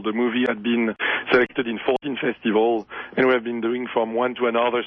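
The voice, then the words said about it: Strained, fading voice. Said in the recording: “Sorry, I'm losing my voice because I'm touring around Europe right now”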